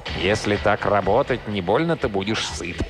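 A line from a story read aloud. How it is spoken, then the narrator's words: Grumbling. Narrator (Russian): проворчал ему вслед мистер Торндайк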